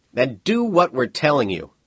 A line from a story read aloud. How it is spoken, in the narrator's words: the FBI man closest to him spoke up harshly